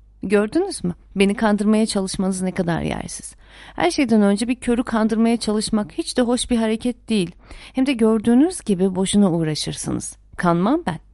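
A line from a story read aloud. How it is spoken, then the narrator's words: Laughing. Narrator (Turkish): diye ekledi gülerek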